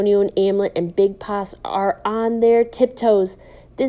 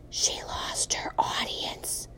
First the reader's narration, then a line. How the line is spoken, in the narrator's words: Amlet whispers